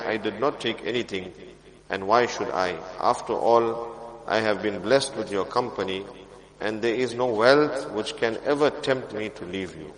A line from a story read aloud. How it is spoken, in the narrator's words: He calmly replied